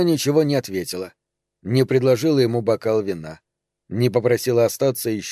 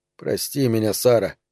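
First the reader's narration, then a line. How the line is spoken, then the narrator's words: Mumbling. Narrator (Russian): бормотал он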